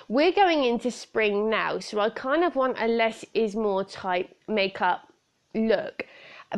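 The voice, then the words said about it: British accent. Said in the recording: “as you can tell from my accent, I live in the UK”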